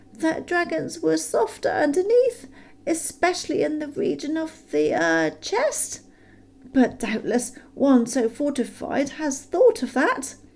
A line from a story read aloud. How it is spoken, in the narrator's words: said Bilbo in a frightened squeak